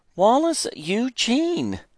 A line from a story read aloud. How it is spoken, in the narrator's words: Mama exclaimed